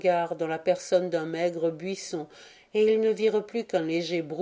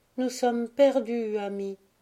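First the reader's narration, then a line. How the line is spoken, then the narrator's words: Sad. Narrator (French): dit-elle tristement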